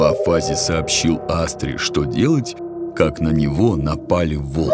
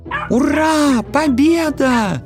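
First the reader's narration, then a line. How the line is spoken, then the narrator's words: Many animals shouting around. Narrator (Russian): Закричали звери со всех сторон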